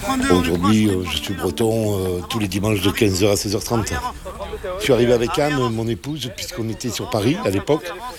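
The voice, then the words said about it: Southwestern French accent. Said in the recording (French): “mon accent, non, il n'est pas tout à fait de Saint-Malo, il est d'un côté aussi sympa, qui s'appelle Grenade sur Garonne”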